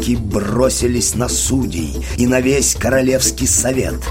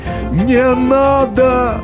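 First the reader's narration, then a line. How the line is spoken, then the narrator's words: King shouting. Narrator (Russian): закричал король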